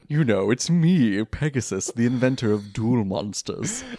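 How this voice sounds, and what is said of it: Good cartoon villain character voice. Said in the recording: “That's a really good Pegasus voice.”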